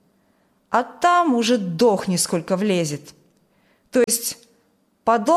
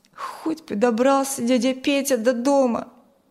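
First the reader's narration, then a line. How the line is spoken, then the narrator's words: Sad sigh. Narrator (Russian): Печально вздохнул Коля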